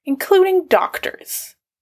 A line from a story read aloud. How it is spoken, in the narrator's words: Drew said tightly